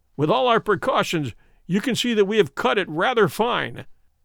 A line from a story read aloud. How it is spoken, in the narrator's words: said Holmes, laughing